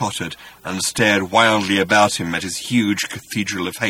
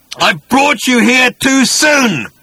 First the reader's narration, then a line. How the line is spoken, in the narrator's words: He started to scream and bellow